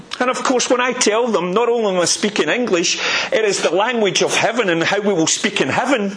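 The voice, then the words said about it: Strong regional local accent. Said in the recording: “if you're from this area, like I am, to disguise your accent when you go to London or wherever ... They know. They wonder if you actually are speaking English.”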